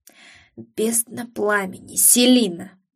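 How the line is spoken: Hoarse, faltering exhale. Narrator (Russian): хрипло выдохнул мужчина, чуть запнувшись

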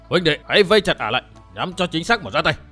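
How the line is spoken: Shout. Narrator (Vietnamese): một tiếng quát

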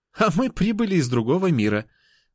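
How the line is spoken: Laughing. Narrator (Russian): рассмеялась Анюта

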